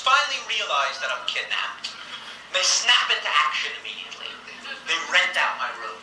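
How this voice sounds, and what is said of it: Exaggerated New York Jewish accent. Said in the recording (French): “son accent, c'est extraordinaire, l'accent juif new-yorkais qu'il accentue, évidemment, il en rajoute”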